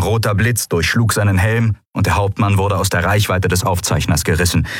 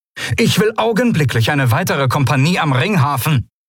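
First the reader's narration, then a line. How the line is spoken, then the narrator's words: Called out loudly. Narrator (German): rief Monaro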